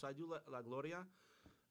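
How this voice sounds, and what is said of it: Puerto Rican Spanish accent on name. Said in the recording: “I'll say that every once in a while with a nice little accent there because of I'm going to give a shout out to my Puerto Ricans”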